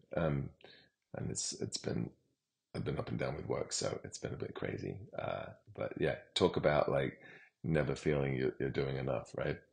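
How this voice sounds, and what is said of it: Tired, worn-out voice. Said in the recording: “pardon my voice. It's been a very long day.”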